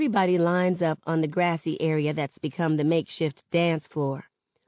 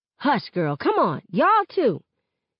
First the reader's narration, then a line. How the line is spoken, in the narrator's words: hollers back